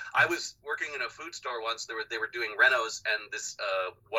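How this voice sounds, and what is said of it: Usual voice. Nothing is said of it.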